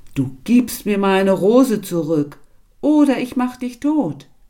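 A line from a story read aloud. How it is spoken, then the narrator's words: Large beast shouting. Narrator (German): ein großes schwarzes Tier, das rief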